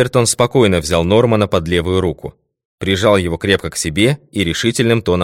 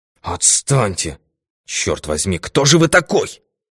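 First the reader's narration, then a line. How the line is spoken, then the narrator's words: Hissed. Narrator (Russian): прошипел Норман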